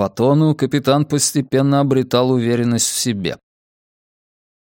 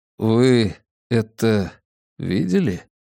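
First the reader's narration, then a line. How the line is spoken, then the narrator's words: Quiet question. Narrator (Russian): негромко поинтересовался Десоя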